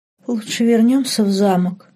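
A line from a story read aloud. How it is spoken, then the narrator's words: Trembling voice, suggesting. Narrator (Russian): дрожащим голосом предложила Лорен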